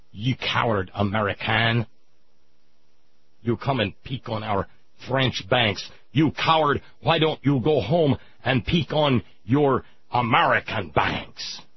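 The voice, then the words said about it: Stereotypical Hollywood French accent. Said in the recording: “almost stereotypical the Hollywood movie French accent”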